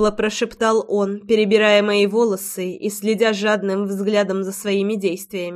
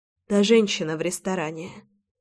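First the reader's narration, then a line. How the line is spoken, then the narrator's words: Whisper. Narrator (Russian): прошептала я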